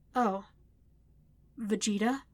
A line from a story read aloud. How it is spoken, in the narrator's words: Vegeta growled